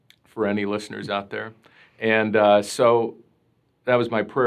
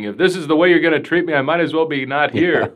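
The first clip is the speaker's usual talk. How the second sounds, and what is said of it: Imitates another person's voice. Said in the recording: “my Mel Brooks impersonation.”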